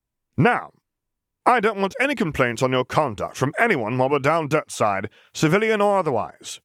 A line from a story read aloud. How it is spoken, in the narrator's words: commanded sharply